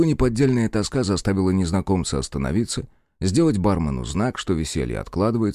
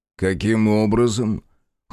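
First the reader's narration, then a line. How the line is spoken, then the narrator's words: Cold question. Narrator (Russian): холодно поинтересовался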